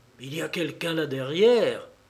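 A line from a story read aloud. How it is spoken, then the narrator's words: Whisper. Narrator (French): chuchota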